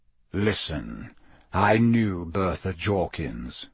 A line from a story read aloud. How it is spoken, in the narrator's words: said Sirius grimly